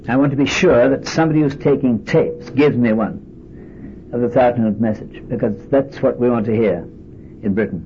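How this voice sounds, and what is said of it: British accent, slightly softened. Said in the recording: “the British accent. 10 years in Chicago perhaps took the sharp end of it.”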